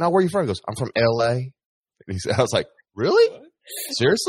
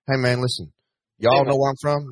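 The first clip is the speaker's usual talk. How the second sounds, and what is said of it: Put-on Lower Alabama Southern accent. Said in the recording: “he got that accent ... that Lower Alabama accent”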